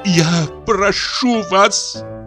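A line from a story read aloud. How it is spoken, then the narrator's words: Through sobbing. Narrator (Russian): слышалось сквозь ее рыдание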